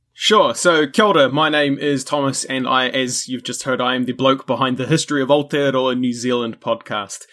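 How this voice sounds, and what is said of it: New Zealand accent. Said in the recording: “my accent and stuff, you probably gathered that's where I'm from”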